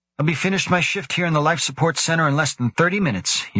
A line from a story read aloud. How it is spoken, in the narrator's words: said cheerfully